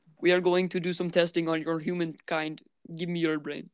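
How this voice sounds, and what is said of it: Robotic alien character voice. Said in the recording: “Sound like a vampire robot. ... How do you do an alien voice accent? ... Sound like a malfunctioning robot.”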